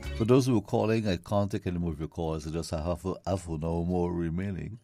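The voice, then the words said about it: Hoarse, strained voice. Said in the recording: “I kind of lost my voice,”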